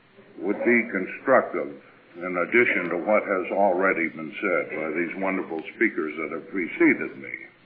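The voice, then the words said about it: Northern US Yankee accent. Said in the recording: “As you can tell, probably, by my accent ... As you can probably tell, I'm a Yankee”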